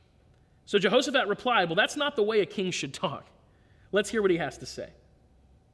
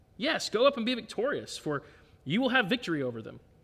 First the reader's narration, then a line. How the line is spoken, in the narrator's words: replied sarcastically